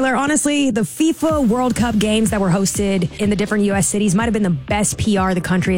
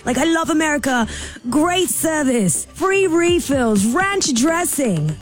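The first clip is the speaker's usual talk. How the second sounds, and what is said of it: Put-on mixed accent. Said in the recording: “What accent are you doing then? ... It was a combo.”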